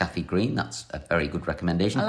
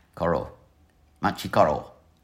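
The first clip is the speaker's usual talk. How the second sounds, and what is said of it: Slightly dodgy put-on accent. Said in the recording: “I like the way you slightly dodgily did that in an accent.”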